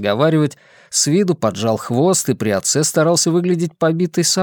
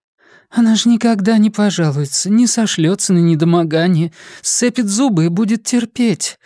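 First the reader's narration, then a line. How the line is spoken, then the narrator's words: Guilty voice. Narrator (Russian): виноватым голосом говорила Наталья Степановна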